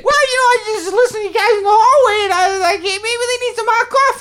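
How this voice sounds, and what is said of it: Peppy Brooklyn accent. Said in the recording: “He's got kind of that Brooklyn sounding accent a little bit. ... Very peppy.”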